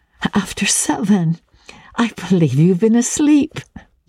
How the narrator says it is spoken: she laughed

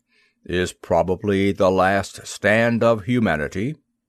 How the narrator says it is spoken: remarked in a deep, throaty voice

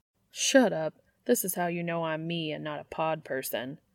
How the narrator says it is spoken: Dean mutters, blushing in spite of himself

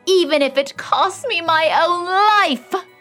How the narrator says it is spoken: she cried

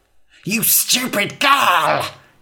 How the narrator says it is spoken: hissed the witch

